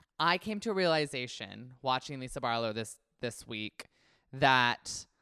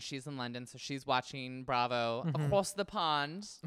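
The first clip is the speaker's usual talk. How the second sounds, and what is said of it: Put-on British accent. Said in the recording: “That was my British accent.”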